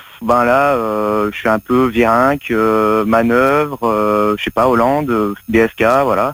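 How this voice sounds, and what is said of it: Usual voice. Nothing is said of it.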